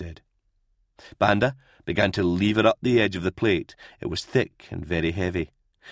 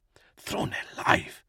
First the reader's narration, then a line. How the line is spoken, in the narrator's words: muttered Lear to Creed